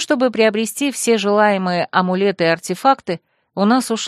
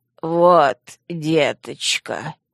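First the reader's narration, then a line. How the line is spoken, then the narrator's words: Hoarse after coughing. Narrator (Russian): Хрипло откашлившись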